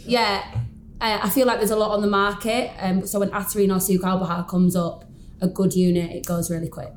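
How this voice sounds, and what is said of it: Yorkshire English accent. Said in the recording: “my Yorkshire accent”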